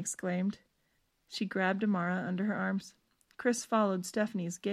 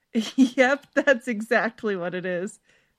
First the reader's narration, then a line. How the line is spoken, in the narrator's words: Stephanie laughed